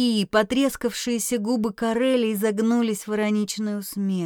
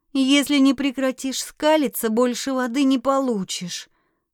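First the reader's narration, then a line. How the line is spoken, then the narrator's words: Grumbled, sad sigh. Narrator (Russian): Буркнула она и грустно вздохнула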